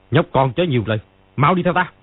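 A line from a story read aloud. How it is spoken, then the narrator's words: Angry. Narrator (Vietnamese): Ni Ma Tinh tức giận nói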